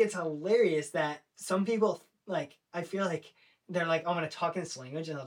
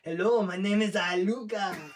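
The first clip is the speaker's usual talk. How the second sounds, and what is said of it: Put-on French accent. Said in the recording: “a French accent ... I'll just talk in an accent of the language”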